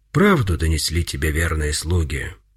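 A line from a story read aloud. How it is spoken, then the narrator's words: Calm reply. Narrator (Russian): спокойно отвечал Пантелеймон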